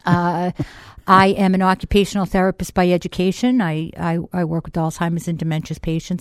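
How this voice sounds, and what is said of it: Boston accent. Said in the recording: “I'm never going to lose my Boston accent”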